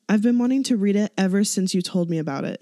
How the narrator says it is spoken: he says

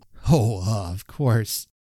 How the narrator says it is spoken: I laughed

